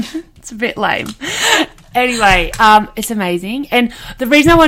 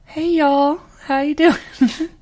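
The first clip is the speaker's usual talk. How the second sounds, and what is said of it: Put-on Southern US accent. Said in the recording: “started occasionally talking in a southern accent because it's set in Texas.”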